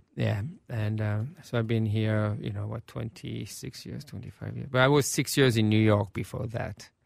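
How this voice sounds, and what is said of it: French accent. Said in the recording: “this French accent”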